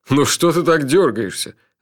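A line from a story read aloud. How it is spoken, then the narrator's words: Laughing. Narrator (Russian): рассмеялся Джуфин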